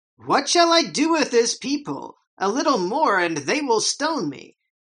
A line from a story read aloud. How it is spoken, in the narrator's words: Moses cried out to the Lord, saying